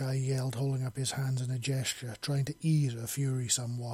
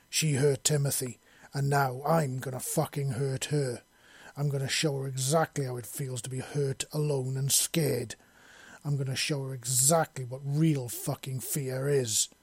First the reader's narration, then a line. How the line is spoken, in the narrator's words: bellowed back at him